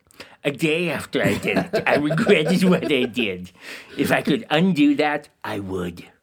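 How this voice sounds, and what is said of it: A put-on character voice. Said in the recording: “the Bartholomew voice”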